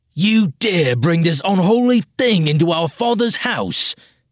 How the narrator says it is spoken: Tireno bellowed

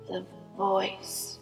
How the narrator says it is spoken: rasped the old man

